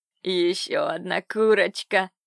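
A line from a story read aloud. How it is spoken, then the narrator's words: Man's hoarse rasp. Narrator (Russian): прохрипел один из мужиков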